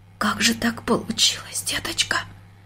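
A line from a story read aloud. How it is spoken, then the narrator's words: Near-whispered question. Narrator (Russian): почти шепотом спросила она дочку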